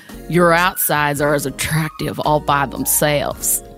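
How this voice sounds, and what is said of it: Put-on Southern belle accent. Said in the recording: “I sound like a Southern belle ... very steel magnolias ... You went straight to Olympia Dukakis”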